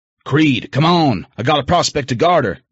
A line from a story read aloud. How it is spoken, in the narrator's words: Diesel shouted from my right